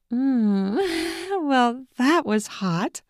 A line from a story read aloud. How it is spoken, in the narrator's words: Michelle said in a voice that sounded more like a moan